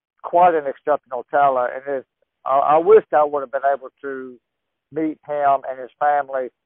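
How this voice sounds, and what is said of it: Southern US accent. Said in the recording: “You had the southern accent.”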